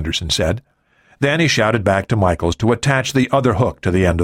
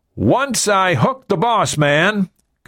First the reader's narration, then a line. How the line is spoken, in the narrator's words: Gunderson shouted